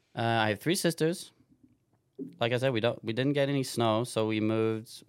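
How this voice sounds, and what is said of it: Slight New Zealand-like accent. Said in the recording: “I have this kind of New Zealandish accent, which I normally have 100%, but now I've been in the States for like six weeks, so it fades you know, a little bit”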